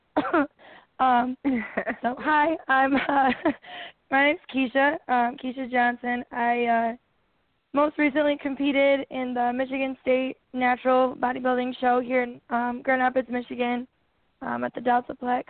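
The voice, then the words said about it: Hoarse, froggy, low voice. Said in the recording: “My voice is a little froggy... hopefully I don't sound too manly here”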